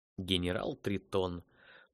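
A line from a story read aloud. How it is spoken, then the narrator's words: Grim muttering to himself. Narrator (Russian): мрачно произнес он про себя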